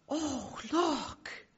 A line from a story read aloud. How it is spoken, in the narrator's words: Lucy gives literally an audible gasp and says